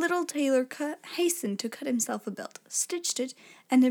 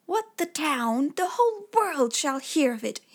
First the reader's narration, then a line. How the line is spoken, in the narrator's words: exclaimed, and his heart wagged with joy